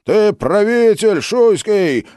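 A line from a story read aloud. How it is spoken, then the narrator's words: Enraged crowd yelling. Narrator (Russian): орали озверевшие стрельцы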